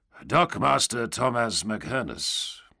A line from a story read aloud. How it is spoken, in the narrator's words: the knight grunted finally